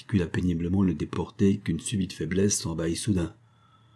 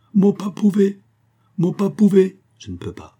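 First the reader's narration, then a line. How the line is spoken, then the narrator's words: Sob-broken voice. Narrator (French): articula la voix, comme entrecoupée par un sanglot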